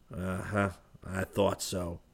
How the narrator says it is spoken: he muttered

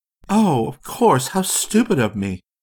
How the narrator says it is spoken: she said in a relieved voice

